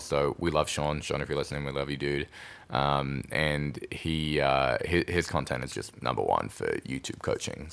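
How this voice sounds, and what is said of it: Australian accent, smooth radio voice. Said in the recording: “you have a sexy Australian radio voice.”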